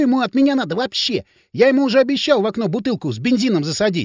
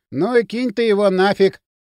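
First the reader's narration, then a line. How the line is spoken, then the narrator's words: Lazy advice. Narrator (Russian): лениво посоветовал Кирилл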